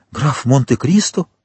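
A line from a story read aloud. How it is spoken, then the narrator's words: Exclaiming. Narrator (Russian): воскликнула она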